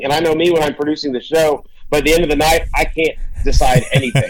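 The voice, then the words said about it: Worn-out, strained voice. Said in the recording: “as you can hear by my voice, I'm still wrecked after 2 days of it”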